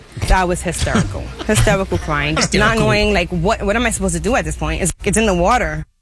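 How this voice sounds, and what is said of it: Attractive foreign-sounding accent. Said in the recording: “sexy accent”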